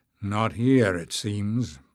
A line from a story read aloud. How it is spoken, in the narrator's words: Barda growled